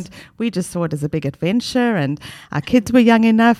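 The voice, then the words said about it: South African accent. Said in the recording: “now I can hear your accent. I'm sure our listeners can hear your accent. ... from South Africa”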